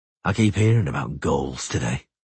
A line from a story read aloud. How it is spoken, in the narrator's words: Geralt sighed